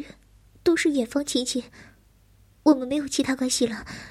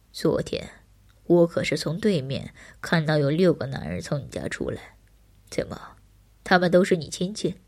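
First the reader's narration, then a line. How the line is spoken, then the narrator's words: Scornful low laugh. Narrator (Chinese): 哼，男人低笑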